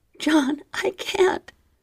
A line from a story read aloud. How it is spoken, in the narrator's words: whimpered, but my liquid low voice broke